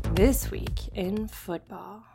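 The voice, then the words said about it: Sexy, seductive announcer voice. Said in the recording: “You like that sexy voice”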